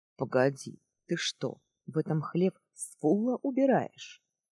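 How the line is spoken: Plain. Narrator (Russian): спросил он

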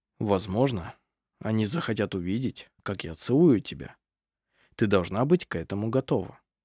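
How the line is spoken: Soft. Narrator (Russian): Арф мягко произнес

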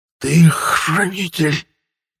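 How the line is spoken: Strained, forced out. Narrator (Russian): выдавил из себя мой противник с великим трудом

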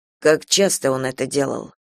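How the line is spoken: Quiet question. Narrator (Russian): тихо спросил Кастел

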